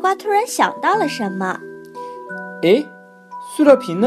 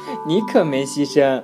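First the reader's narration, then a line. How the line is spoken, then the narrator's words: Cheerful laughing. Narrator (Chinese): 呱呱在一旁听到了，笑呵呵地说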